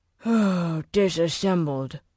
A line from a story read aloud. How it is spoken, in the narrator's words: Walker said with a sigh